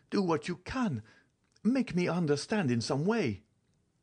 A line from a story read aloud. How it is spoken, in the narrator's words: cried he